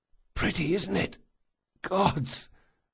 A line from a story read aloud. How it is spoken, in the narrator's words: whispered Locke